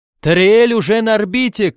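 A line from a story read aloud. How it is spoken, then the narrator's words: Shouting. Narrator (Russian): крикнул он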